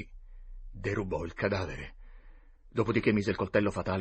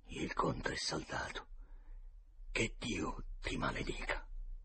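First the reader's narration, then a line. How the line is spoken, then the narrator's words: Muttered. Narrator (Italian): Il meticcio borbottò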